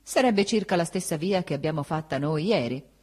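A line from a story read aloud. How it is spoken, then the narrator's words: Curt. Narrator (Italian): disse seccamente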